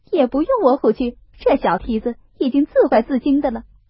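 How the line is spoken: Laughing. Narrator (Chinese): 晴雯笑道

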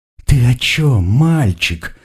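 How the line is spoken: Bride's cooing. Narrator (Russian): проворковала невеста

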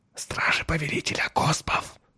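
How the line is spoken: Whispered. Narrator (Russian): прошептал Джурал

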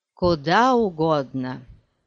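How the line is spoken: Plain. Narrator (Russian): ответил он

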